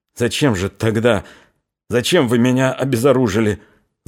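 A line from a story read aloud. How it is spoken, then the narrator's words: Stuttering question. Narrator (Russian): заикаясь, спросил он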